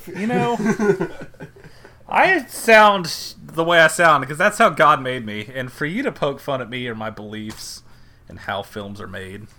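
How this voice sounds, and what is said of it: Mocking impression of another person. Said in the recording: “that impression”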